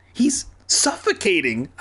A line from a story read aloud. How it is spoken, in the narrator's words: I cried